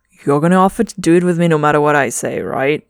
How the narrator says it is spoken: Trevor chuckles

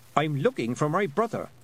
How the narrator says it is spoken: said Tiffany sharply

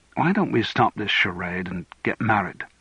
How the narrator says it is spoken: She sighed

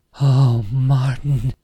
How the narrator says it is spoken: moaned softly

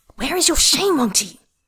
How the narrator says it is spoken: Tang Fan hisses

